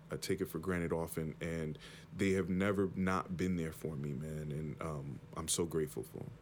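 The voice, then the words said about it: Emotional, choked-up voice. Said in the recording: “getting choked up”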